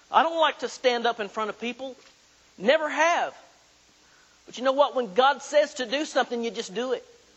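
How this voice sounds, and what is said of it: Oklahoma Southern American accent. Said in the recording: “Born and raised in southeastern Oklahoma, if my accent didn't give me away already. I'm an Okie.”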